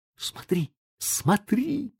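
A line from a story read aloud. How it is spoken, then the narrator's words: Whisper. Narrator (Russian): прошептал Том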